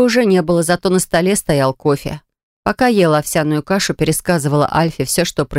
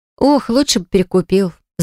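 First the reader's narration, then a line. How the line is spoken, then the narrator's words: Sighing. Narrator (Russian): вздохнула я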